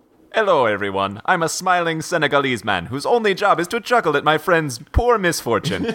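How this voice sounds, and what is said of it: Put-on Senegalese accent. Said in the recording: “I like the Senegalese accent ... It's the exact same accent as Eddie Murphy in Coming to America.”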